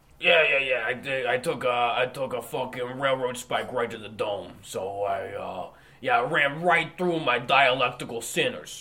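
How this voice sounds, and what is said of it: Tony Danza impression accent. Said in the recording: “you woke up with this accent ... this is what I sound like now. I'm Tony Danza”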